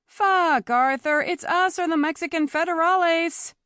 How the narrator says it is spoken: she yelled again

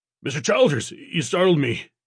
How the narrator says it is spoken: Gessling stammered before recovering

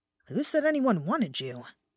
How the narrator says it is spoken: I muttered under my breath

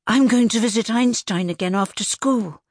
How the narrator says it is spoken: said Arthur eagerly

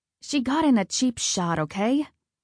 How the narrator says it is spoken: I grumbled

